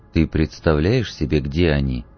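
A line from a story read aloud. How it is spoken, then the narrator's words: Low-voiced question. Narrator (Russian): вполголоса спросил он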